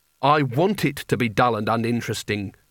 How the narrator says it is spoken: said Rincewind bitterly

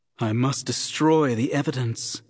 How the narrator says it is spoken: she breathed to herself

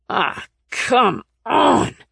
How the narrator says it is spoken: he growled

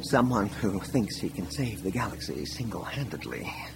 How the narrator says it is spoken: Leia mumbled

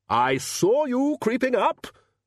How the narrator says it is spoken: roared the Arch-Chancellor

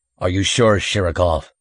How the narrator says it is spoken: he grunted

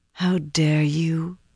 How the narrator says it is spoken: Elaine breathed

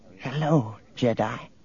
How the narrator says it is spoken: A thin little woman brightened and whispered

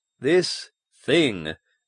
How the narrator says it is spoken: Baines said slowly

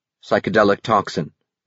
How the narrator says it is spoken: he said thickly

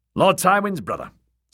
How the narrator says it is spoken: said a guardsman

